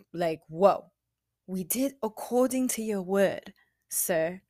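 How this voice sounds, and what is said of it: Put-on accent. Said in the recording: “I don't know why I did that in the accent.”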